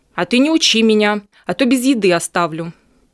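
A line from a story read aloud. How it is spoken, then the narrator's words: Angry. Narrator (Russian): Лиса сердито ответила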